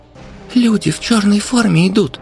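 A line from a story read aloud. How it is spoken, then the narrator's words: Squeaky child's voice. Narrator (Russian): пропищал мальчик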